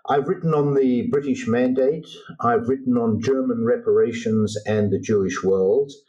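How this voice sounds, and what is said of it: Australian accent. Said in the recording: “I'm originally Australian, hence my accent”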